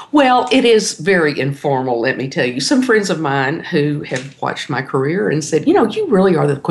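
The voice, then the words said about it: Native Texan accent. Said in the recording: “you really are a native Texan. I think you are, based on that accent.”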